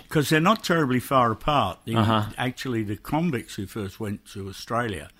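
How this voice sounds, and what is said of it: London accent with Australian overlay. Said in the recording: “Sounds kind of Australian to me. ... it's really still a London accent with an overlay of Australian. ... A little bit of both. It's hybrid.”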